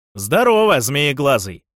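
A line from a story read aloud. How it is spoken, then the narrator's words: Booming. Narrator (Russian): прогудел Фафхард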